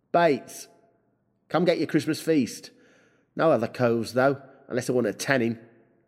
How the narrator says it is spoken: he called out

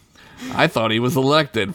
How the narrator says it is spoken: Fred said sarcastically

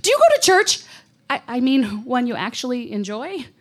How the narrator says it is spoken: I blurted out

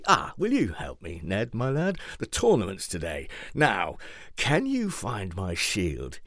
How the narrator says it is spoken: he asked

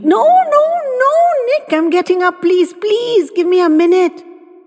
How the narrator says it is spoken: She squealed

